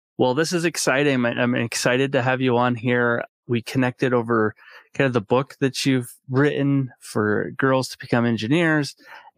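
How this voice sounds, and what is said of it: Voice affected by illness. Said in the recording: “apologize for my voice. ... I get sick”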